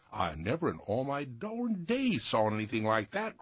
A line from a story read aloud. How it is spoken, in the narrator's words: cried Peter Busy